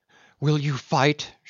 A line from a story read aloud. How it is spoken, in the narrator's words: she cried